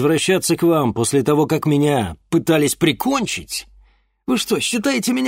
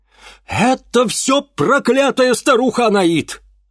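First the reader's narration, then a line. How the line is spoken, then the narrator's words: Exclamation. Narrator (Russian): воскликнул Ипполит Германович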